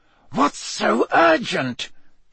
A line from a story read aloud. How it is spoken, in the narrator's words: he heard Snape hiss at Karkaroff